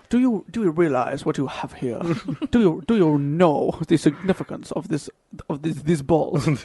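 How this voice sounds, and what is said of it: Put-on accent drifting English to French. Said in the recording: “What accent? ... changed a lot there. It went from like English to French very quickly.”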